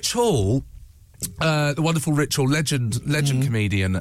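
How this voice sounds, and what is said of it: Usual voice. Nothing is said of it.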